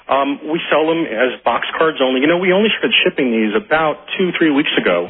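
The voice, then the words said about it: New York accent. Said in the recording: “with my New York accent”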